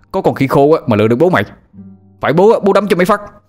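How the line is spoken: Shouted. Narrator (Vietnamese): Anh Thông hét lên

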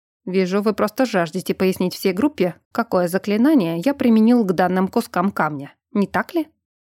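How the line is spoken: Snort then speaking. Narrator (Russian): глазастик, как я заочно окрестила учителя трансмагификации, хмыкнул и произнес

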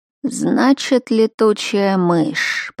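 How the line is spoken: Drawn-out female voice. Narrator (Russian): протянула она

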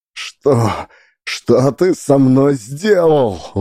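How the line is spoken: Shouting through sobs. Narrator (Russian): выкрикнула Лидия сквозь рыдание

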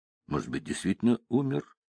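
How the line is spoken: Thoughtful mutter. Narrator (Russian): задумчиво пробормотала Венди

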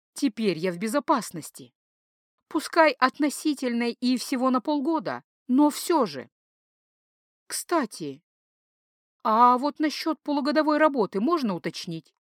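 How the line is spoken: Plain. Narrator (Russian): спросила я

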